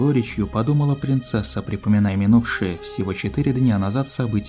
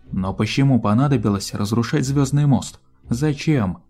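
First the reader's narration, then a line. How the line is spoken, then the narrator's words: Plain. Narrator (Russian): спросил Даймонд Стар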